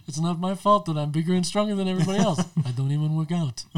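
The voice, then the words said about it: Imitates another person's voice. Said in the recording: “I have the worst André the Giant impersonation, but it's fun to do.”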